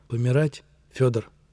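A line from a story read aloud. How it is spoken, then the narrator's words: Heavy syllable-by-syllable whisper. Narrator (Russian): Раздельно по слогам тяжело прошептал бывший полицай и теперь уже бывший штрафник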